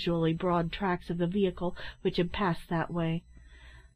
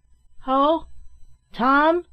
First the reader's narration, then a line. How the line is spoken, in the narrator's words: he shouted on entering